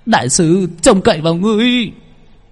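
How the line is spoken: Frantic shout. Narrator (Vietnamese): Cao Thành dậm chân la lên

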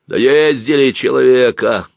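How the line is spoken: Loud indignant voice. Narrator (Russian): громко и негодующе сказал кто-то

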